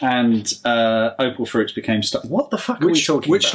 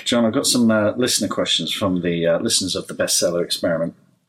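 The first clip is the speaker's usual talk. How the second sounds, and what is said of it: Deeper, sexier podcast interview voice. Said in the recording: “You sort of dropped into a mode then, didn't you? ... Suddenly your voice went a bit deeper. ... This is interview voice. ... Podcast voice. ... A lot sexier when you're doing your podcast.”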